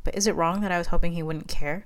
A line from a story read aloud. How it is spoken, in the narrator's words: Amelia sighed